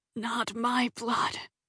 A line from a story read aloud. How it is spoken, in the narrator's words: whispered